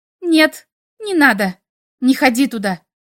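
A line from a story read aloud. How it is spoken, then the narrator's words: Curt, surprised. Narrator (Russian): Отрывисто бросила она, удивившись собственным словам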